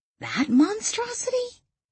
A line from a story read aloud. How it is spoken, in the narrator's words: Danielle gasped